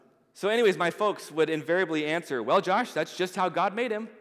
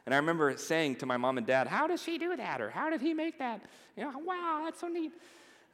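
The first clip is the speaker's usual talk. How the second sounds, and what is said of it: Elementary school teacher voice. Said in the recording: “that's my elementary school teacher voice”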